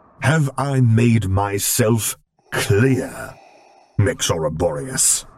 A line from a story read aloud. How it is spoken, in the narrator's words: He growled